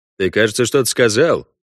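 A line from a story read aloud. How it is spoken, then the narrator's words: Cold question. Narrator (Russian): холодно спросил Парт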